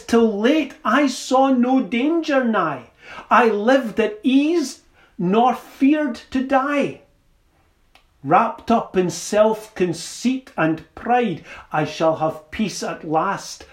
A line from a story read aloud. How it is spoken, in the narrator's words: I cried